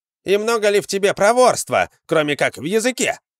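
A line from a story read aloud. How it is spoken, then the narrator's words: Shout from behind. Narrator (Russian): крикнул кто-то из стоявших сзади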